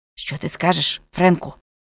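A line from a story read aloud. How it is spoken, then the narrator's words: Whispered question. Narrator (Ukrainian): пошепки спитав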